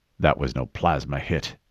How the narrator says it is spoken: he muttered

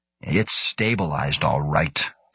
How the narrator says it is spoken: Karlstad sneered

